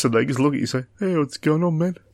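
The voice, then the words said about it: Put-on New Zealand accent. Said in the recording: “that was your Kiwi accent.”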